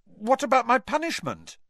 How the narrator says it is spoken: blurted Harry

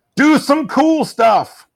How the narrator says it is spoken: one of the fans, I'm presuming it's someone sitting right by the hard camera up in the balcony, shouts

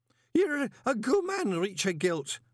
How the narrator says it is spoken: Horsefry hiccuped

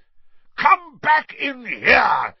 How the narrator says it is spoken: he bellowed

